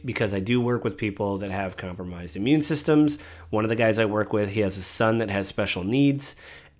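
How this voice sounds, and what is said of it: Sick, congested head-cold voice. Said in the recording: “As you can tell in my voice, ... I'm sick. ... I just have a head cold”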